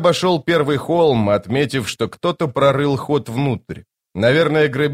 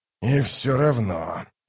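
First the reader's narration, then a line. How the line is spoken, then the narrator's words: Muttering. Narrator (Russian): пробормотал Ток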